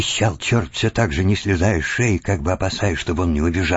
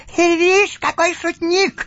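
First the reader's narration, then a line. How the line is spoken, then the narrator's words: Laughing shout. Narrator (Russian): закричал, смеясь, черт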